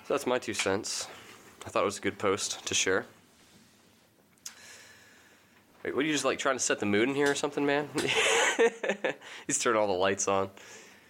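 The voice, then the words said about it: Slightly strange-sounding voice. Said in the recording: “my voice sounds a little strange today. I've been sick for like the last 4 days.”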